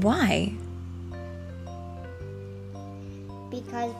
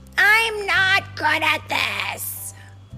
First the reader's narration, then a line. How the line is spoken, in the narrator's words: she would shout